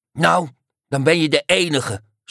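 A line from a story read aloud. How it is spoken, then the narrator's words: Snapping. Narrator (Dutch): snauwde de Neehoorn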